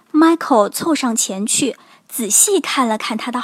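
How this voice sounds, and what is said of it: Usual voice. Nothing is said of it.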